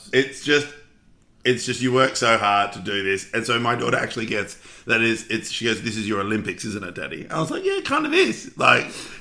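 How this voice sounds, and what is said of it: Strained, failing voice. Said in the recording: “God, my voice is going, isn't it?”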